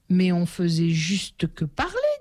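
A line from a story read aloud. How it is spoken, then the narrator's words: Plain. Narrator (French): dit Laurie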